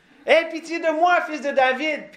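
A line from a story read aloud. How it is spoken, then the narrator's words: Shouting louder. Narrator (French): il crie encore plus fort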